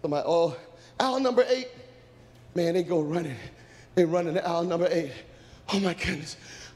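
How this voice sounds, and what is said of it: Breathless, panting delivery. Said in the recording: “I'm out of breath.”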